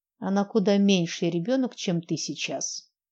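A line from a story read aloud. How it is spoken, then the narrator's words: Grumbling. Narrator (Russian): проворчала наставница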